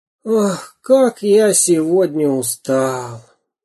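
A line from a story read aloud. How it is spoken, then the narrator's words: Sigh. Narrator (Russian): вздохнул карандаш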